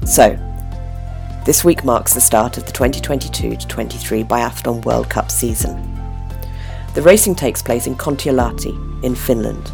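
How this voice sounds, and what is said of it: Husky voice from a cold. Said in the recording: “my voice is a little bit huskier than last time. Um, I'm just at the tail end of a fairly nasty cold”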